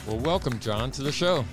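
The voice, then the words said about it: Polished radio announcer voice. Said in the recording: “Radio voice there.”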